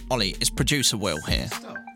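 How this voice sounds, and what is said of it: Impression of the producer. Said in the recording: “heard my impression of him ... Do your Will impression again.”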